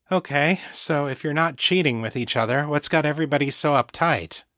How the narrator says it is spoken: Brian sighed

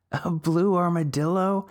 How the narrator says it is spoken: multiple girls laughed

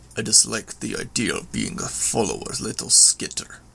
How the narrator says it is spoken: Lung rumbled

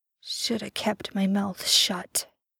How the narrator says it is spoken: Sam mumbled

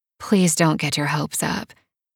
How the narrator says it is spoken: she says softly

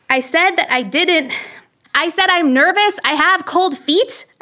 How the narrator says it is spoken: shouted at him

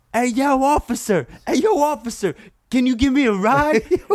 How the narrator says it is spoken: somebody screaming at me across the street

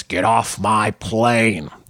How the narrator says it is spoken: Ford gruffly announce

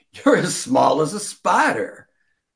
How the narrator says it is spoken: Bart told him while laughing

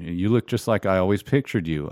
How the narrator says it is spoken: I said

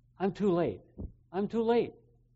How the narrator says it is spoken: The young man cried out

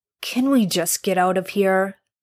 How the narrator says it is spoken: Dean sighed

